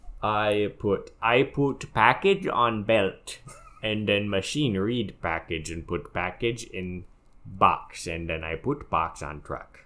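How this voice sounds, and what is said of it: Put-on comic accent. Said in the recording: “What is that accent? ... It is the tongue of the post office.”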